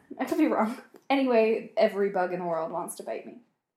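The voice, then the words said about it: American accent. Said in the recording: “by her accent, you can hear. ... I'm American.”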